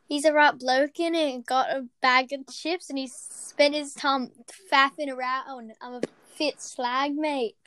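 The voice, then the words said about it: Put-on British accent. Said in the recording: “That's my British accent”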